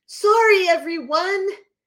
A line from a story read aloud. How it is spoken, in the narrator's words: the guy loudly proclaims